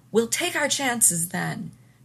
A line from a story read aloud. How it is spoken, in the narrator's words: Beckett shouted